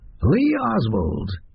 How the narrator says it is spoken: he said, his voice high and reedy

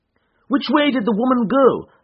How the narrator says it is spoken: I cried

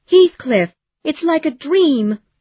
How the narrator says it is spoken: Kathy cried

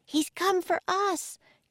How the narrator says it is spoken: cried Annie

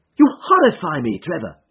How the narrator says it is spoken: I cried

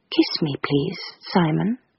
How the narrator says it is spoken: she said, very quietly, but very distinctly

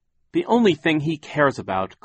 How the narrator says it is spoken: said bitterly

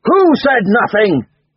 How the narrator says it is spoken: he yelled, crashing both fists on the table

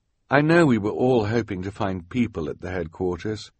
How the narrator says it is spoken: the sweated scout said gently

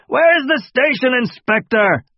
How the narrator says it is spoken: the old man yelled down the hallway again

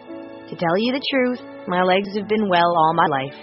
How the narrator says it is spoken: she said

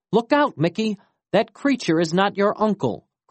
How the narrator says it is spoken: cried his father

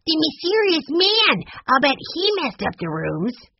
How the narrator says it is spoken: Benny piped up

